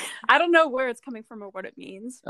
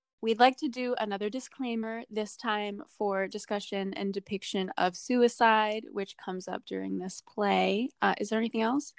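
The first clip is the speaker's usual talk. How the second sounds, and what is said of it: Crisp, official flight-attendant-like delivery. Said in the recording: “That was so official. You sound like crisp and clear. ... Do I sound like a flight attendant right now?”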